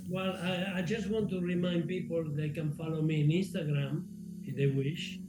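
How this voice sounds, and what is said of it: Foreign-accented English. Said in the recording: “this foreign person with an accent”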